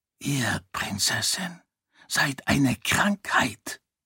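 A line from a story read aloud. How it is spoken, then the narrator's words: Barely audible whisper. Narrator (German): flüsterte Dilaf Sarene ins Ohr, so dass Hyrateen ihn kaum verstehen konnte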